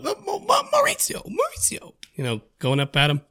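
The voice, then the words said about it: Imitates a TV character's voice. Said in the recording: “That's good, Charlie accent. That's good. That's real good.”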